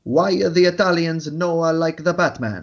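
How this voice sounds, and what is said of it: Put-on Italian accent. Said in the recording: “That was my best impression at an Italian accent”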